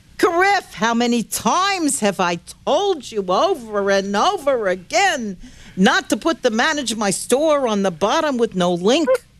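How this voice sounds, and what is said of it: Nagging character voice. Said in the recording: “I'll do it in a character voice.”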